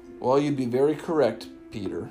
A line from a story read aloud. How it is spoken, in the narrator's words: said Father Reinhardt